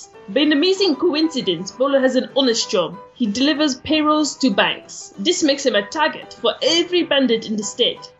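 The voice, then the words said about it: Inconsistent put-on accent veering Jamaican. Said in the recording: “You're veering into Jamaican. ... I can't do an accent consistently. So, this is horrible.”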